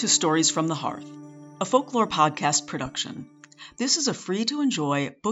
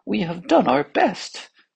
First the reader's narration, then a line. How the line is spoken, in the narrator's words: said one of the physicians in a trembling voice